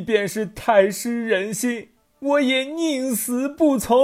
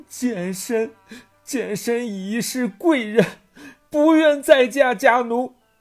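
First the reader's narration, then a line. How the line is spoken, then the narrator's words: Crying while speaking. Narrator (Chinese): 于是貂蝉哭得更厉害，一边哭一边说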